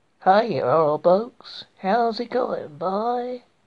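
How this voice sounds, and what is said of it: Poor put-on American accent. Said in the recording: “me trying to do an American accent. This is my really poor attempt at American accent. ... Not very good, is it?”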